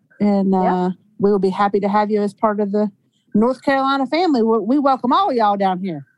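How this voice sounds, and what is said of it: Southern US accent. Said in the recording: “that accent”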